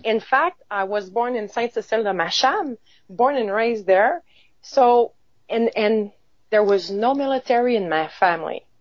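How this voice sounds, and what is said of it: Quebec French accent in English. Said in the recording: “I was born in Quebec... So I guess you can hear it in my accent, of course... I can.”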